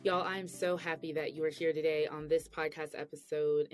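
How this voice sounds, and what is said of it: Slightly weak, sick-sounding voice. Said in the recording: “I have the flu... You could probably hear in my voice a little bit. I'm not 100% better... I had laryngitis too. So I totally lost my voice.”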